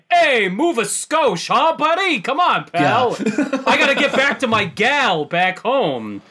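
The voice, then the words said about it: Old-movie 1950s American GI accent. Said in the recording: “if you were writing a movie in the late 70s about GIs stationed in Okinawa in the 1950s, it sounds like what you would expect the accent to be like”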